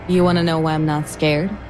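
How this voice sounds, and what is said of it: Low, steady voice. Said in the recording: “My voice was low but steady.”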